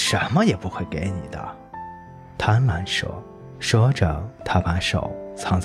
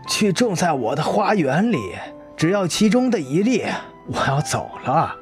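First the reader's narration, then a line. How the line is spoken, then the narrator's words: Loud. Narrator (Chinese): 死亡大声说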